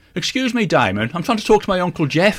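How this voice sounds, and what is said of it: Strong Brummie accent. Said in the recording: “My Brummie accent comes up more after a few drinks.”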